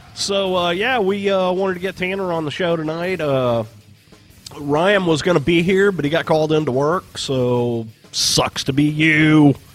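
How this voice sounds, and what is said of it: Sick, congested voice from a cold. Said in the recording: “I am got some sort of cold here... So I sound a little funny... now I sound like a sick dork”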